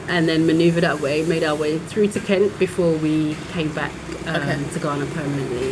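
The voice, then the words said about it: British accent. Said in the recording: “you both have the UK accent.”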